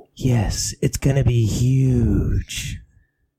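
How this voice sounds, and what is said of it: Breathy, hissing snake-like voice. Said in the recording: “You're breathy, ain't you? ... You sound like a snake, ... literally a snake.”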